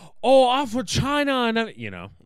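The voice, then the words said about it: Mock Asian accent. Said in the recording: “can't do an Asian accent? ... it's really racist and offensive for me just to be like ... That was bad.”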